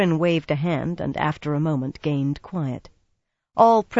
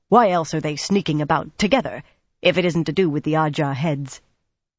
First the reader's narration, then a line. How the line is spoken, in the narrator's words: Tallinn barked